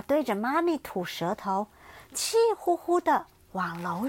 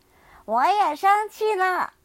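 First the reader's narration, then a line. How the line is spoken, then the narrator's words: Shrieking retort. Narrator (Chinese): 冰冰尖叫着回嘴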